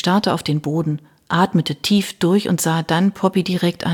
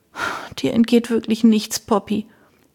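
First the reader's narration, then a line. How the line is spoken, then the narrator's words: Sighing. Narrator (German): Pat seufzte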